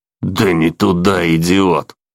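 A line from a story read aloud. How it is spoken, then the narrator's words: Contemptuous through teeth. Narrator (Russian): презрительно процедил Лоркан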